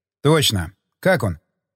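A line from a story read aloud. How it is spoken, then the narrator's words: Plain question. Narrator (Russian): спросил уже я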